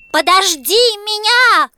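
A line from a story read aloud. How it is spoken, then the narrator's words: Little frog's shout. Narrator (Russian): крикнул лягушонок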